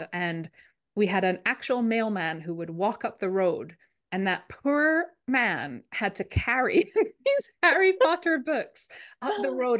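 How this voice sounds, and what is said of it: Scottish accent. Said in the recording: “I grew up in Scotland, which is, if you've been wondering where I'm from, that's the accent.”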